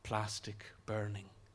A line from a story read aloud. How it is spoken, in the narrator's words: she purrs